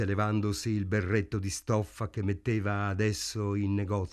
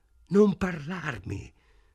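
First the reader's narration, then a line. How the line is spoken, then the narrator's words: Choked with contempt. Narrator (Italian): rispose lei con voce strozzata dal disprezzo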